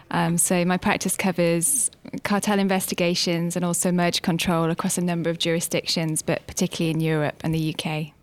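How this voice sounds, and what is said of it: British London accent. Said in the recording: “You can maybe tell from the accent that I'm based in the London office.”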